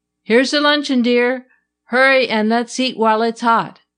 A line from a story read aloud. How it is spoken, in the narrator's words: he called out